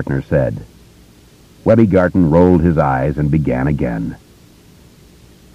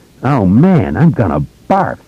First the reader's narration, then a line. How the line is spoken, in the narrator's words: Webby cried, disgusted